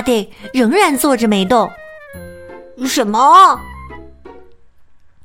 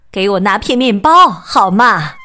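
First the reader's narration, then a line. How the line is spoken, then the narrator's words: Plain. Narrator (Chinese): 巴蒂说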